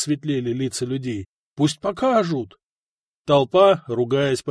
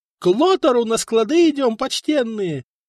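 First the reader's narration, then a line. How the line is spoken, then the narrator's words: Man's shrill squeal. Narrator (Russian): визжал все тот же рыжий мужичок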